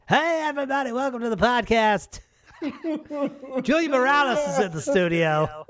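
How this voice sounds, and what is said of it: Exaggerated podcast host voice. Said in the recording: “This is my podcast voice. ... I got to put some sauce on it, you know.”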